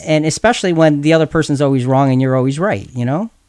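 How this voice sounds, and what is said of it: Sarcastic tone. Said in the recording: “I'm being sarcastic. ... I am being sarcastic”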